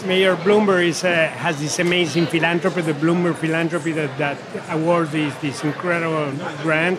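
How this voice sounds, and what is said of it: Speaks English with an accent. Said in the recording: “despite our accent, very American”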